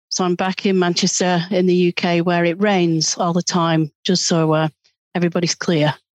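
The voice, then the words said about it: British accent. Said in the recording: “a really great Britain accent”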